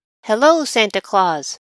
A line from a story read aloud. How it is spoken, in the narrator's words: He called out again